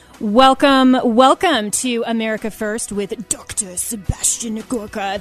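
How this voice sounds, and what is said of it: Impression of Sebastian Gorka. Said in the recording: “That's my best impression of Seb.”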